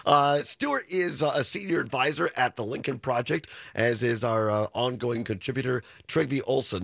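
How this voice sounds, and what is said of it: Hoarse, congested voice. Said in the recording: “I'm still struggling with a hoarse voice... I've just lost my voice. I'm congested”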